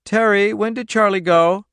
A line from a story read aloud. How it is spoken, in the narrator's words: The child's voice piped